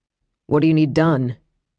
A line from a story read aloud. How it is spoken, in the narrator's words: he asked, his tone far calmer than the one he'd leveled at her